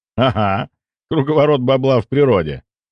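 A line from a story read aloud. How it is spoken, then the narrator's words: Laughing. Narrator (Russian): рассмеялся я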